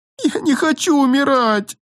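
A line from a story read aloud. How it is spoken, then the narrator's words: Shrill scream. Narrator (Russian): завизжала принцесса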